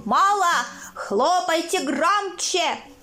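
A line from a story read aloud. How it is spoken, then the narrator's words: Shouting caliph. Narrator (Russian): калиф кричал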